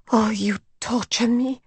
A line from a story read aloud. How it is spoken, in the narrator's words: she murmured